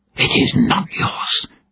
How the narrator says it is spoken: Sheridanin hissed

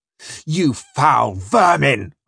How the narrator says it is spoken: roared

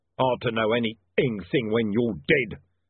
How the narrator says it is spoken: snarled Mr

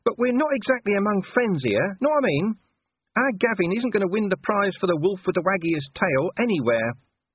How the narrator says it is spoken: whined Gaspode

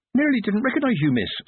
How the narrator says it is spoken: said Amber cheerfully

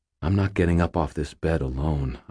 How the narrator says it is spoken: I said quietly

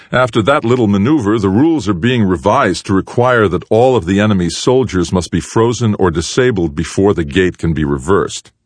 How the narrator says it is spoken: Loudly, Anderson said

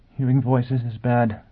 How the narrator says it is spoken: the furious angel murmured

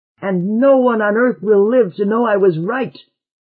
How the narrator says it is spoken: cried out Lamont, and blinked to keep back the tears

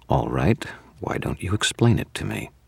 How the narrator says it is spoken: She said in a deadly, reasonable tone

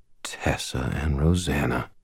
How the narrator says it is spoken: I said quietly

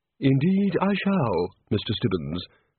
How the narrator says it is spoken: said the Chair calmly

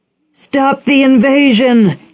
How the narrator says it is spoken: he shouted

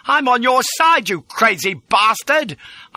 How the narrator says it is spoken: I shouted

